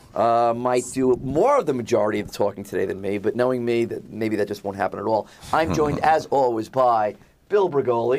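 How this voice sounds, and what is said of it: Low-energy voice. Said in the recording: “If I sound a little low energy, I have a cold.”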